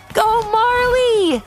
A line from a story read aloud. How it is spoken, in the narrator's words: called out Miss Whitaker